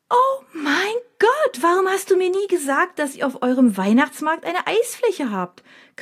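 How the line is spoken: Sudden shriek. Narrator (German): kreischt Mina plötzlich

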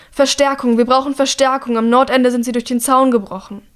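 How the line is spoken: Calling out. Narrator (German): ruft

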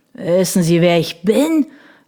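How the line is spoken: Drunken slurring. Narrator (German): lallte Lucktrot

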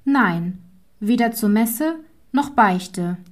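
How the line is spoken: Calm girl. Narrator (German): sagte das Mädchen ruhig

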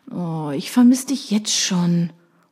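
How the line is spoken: Purring. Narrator (German): schnurrt

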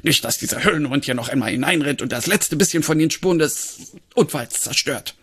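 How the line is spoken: Barking. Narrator (German): bellte Fumble

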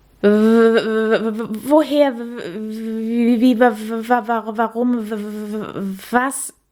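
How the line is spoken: Surprised stammering. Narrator (German): stammelte Käthe überrascht

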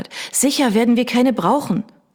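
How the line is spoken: Calling out. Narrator (German): rief Miss Hogarth

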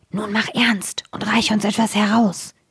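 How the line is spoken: Whispering. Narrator (German): flüsterten ihm zu

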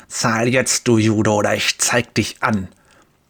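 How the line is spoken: Spitting hiss. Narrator (German): Speichel sprüht, als er zischt

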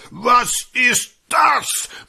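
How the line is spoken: Thundering. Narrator (German): donnernd

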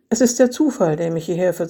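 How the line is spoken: Calm voice. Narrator (German): sagte Eva mit ruhiger Stimme

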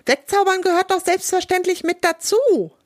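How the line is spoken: Panicked shriek. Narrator (German): kreischt Stella jetzt schon etwas in Panik

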